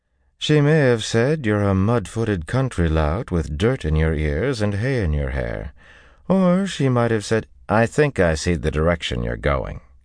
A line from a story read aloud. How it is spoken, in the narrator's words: he told her through gritted teeth